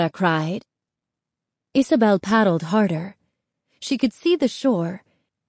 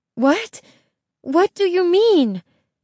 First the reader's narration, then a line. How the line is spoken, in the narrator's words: Isabel asked, panting